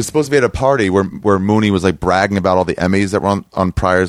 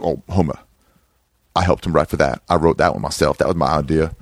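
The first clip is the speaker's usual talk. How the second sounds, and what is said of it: Poor Paul Mooney impression. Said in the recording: “I do a terrible Mooney impression.”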